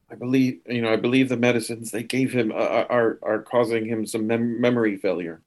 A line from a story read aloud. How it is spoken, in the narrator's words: Rutherford quietly to Cully and just says